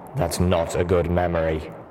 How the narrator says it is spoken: Steelhooves rumbled

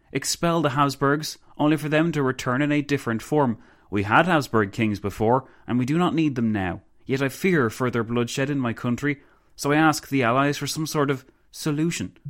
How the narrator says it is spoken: the Countess exclaimed

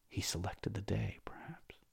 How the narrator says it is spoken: whispered to himself

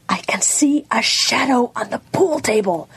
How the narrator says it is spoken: she said in a fierce whisper

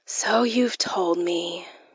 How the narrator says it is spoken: I said wearily

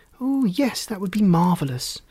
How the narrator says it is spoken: an excited Rosie exclaimed

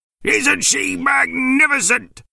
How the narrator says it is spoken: He shouted

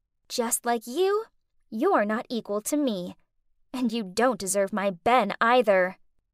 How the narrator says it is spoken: Faye then turned around and whispered

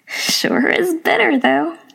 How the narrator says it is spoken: the old woman laughed

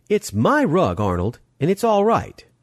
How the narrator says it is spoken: said sharply

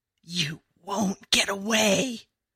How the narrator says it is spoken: Sky, but the terrible sky, with the crazy rabbit-whispering voice, raspy and broken, as if he'd screamed his real self away

